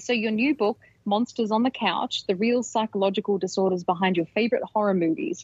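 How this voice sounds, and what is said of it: Australian accent. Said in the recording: “You make it sound better with an Australian accent.”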